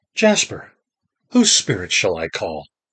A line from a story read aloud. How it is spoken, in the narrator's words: said in a clear voice